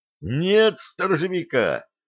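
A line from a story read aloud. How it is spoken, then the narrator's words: Dazed, unnaturally loud. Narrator (Russian): Все еще не придя в себя, неестественно громко произнес старпом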